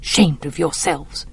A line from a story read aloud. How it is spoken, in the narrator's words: Calpurnia muttering